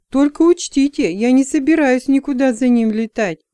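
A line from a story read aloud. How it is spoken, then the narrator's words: Exclaimed. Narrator (Russian): воскликнул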